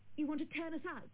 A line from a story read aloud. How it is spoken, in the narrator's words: Dale cried